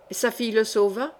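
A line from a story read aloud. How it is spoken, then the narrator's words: Quick, lively. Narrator (French): dit vivement l'Espagnol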